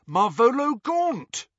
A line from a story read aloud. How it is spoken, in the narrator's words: A filthy old man brandishing an ugly ring in the face of a ministry official, and he cried aloud